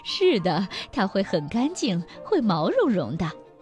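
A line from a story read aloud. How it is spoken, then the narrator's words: Laughing. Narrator (Chinese): 妈妈笑着说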